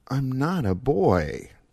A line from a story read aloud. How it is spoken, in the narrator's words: Joaquin said softly